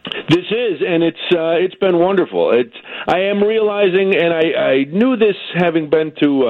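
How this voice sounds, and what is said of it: Usual voice. Nothing is said of it.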